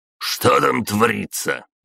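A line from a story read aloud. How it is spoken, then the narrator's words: Barking over radio. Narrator (Russian): рявкнул он в рацию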